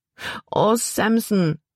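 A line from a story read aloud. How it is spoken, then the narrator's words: Wailing. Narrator (German): jammerte Libby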